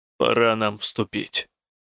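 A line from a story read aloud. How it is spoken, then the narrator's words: Gruff mutter. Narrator (Russian): буркнул Рук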